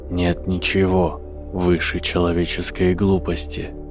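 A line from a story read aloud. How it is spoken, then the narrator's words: Whisper from the void. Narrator (Russian): прошептал голос из пустоты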